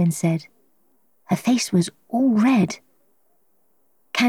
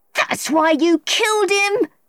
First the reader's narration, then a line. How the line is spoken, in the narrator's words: Marilyn shouted